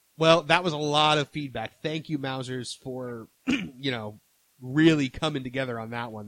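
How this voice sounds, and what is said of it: Worn-out, strained voice. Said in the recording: “My voice is about shot. ... I almost held it through with no coughing.”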